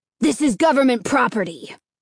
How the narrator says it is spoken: the postmaster replied sharply

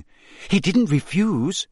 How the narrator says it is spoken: gasped Hermione

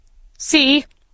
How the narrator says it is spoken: cried

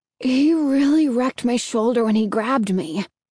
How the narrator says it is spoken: said, groaning

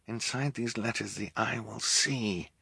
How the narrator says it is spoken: Klaus muttered again

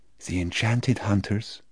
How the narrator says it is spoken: almost a whisper

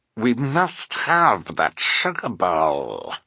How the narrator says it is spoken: she snarled

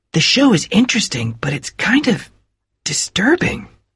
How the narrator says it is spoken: whispered Nick to Bill

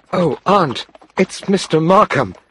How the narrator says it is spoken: Helen cried

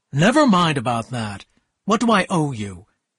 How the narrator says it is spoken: he said in a hard, cold voice

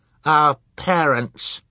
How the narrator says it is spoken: Sunny said fiercely

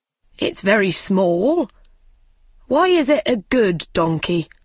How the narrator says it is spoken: asked Bob

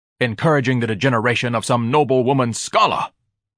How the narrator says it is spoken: Ignatius barked

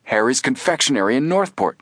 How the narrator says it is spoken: Frank broke in excitedly

